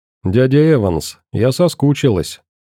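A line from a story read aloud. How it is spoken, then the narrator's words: Tender. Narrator (Russian): нежно проговорила она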